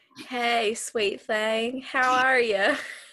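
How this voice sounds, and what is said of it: Southern drawl. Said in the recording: “Asked Mark in a southern drawl.”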